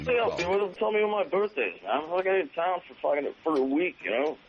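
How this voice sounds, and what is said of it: Bad, stammering impersonation of another's voice. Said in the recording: “that is the worst impersonation ... Just stammering.”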